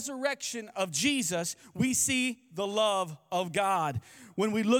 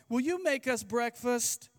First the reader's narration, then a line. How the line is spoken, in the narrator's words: his little five-year-old said in her most innocent, sweet voice